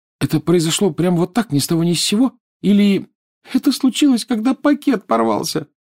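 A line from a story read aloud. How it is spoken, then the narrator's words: Sobbing. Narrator (Russian): всхлипнула Лиана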